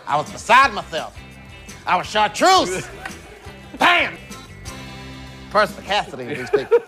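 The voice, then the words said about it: Impression of Dave Chappelle. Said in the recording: “Jamie Foxx does a hilarious impression of Dave Chappelle”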